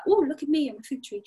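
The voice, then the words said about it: Playful voice of a fig tree. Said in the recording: “my impression of it”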